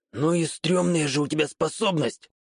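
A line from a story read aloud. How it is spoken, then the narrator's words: Stifled exhale. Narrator (Russian): Как-то придушенно выдохнул Камура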